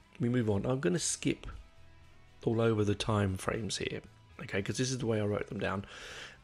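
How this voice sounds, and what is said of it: English accent. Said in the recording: “blame it on my English accent”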